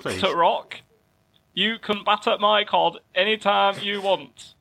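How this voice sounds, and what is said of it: Put-on northern English accent. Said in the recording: “Can you do it in a northern accent, please?”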